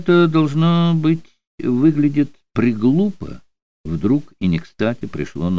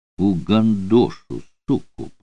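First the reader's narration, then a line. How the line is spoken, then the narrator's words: Hiss. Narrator (Russian): прошипел он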